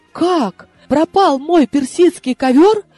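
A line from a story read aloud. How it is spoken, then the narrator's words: Feverish wail. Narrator (Russian): горячечно завопила я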